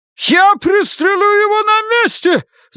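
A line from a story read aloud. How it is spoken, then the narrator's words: Shouting shopkeeper. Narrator (Russian): закричал хозяин магазина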